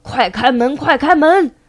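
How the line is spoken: In unison. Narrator (Chinese): 三只小兔一起说

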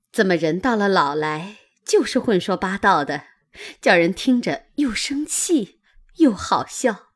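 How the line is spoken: Laughing. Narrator (Chinese): 袭人笑道

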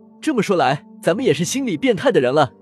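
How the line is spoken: Smiling. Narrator (Chinese): 风正苏笑笑说

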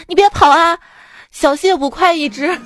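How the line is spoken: Dazed, calling repeatedly. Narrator (Chinese): 老板懵了，在后面连喊

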